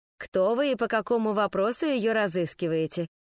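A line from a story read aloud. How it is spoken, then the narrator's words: Calm plain question. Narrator (Russian): спросили спокойно, без подтекстов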